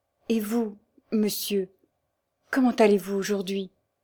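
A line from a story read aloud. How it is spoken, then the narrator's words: Nearly trembling voice. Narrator (French): elle demanda d'une voix presque tremblante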